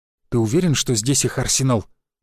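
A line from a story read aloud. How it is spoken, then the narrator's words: Whispering. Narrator (Russian): прошептал Череп-младший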